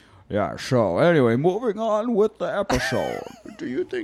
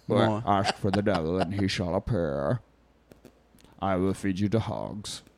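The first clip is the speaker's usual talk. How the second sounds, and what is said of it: Low villain voice impression of Bane. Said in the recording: “that is who he sounds like. ... My impression this entire episode is going to be interchangeable between Mason Berger and Bane. ... Bane is a little bit ... A little lower.”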